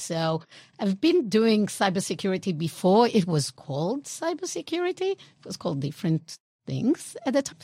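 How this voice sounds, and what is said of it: Israeli accent, nondistinct European-sounding. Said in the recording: “We Israelis, if you didn't figure out by the accent, I guess it's European non-distinct”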